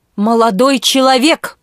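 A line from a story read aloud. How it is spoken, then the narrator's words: Booming voice. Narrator (Russian): прогремел он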